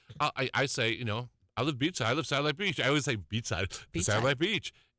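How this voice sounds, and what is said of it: New Jersey accent. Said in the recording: “is it my accent? ... I'm from Jersey. And then people go, oh, yeah, of course you are.”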